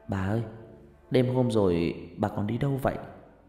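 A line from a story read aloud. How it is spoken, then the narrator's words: Soft question. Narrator (Vietnamese): Huyền khẽ hỏi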